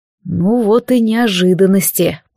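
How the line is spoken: Helplessly angry, through teeth. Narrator (Russian): процедил Алистар с бессильной злостью

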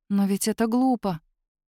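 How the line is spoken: Quiet. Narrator (Russian): тихо говорит она

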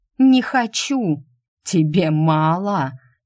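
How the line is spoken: Laughing. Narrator (Russian): темный Хис рассмеялся

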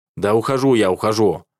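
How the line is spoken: Irritated, spat out. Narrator (Russian): раздраженно выхаркиваю

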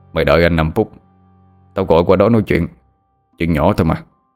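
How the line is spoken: Gruff smirking man's voice. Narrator (Vietnamese): Cái giọng ồm ồm của người đàn ông đầu dây bên kia cười nhếch mép rồi nói

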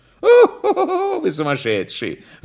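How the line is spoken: Laughing. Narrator (Russian): засмеялся Прягин

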